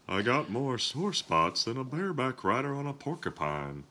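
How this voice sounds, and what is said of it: Hank Hill impression with a cold. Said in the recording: “That was me trying to do a voice, even though I have a cold. ... My favorite Hank Hill line. ... From King of the Hill. ... That was futile.”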